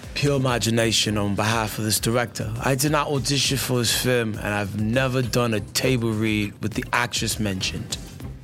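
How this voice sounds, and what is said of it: Attempted Russell Crowe Australian accent. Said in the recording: “Was that an Australian accent? ... That was more like Idris Elba, actually. ... You're going to need to throw a little more kangaroo in.”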